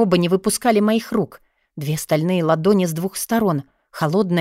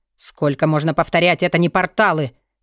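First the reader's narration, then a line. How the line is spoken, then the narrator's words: Growled. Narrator (Russian): рыкнул Вёлвинд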